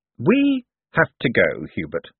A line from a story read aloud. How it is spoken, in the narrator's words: said Moist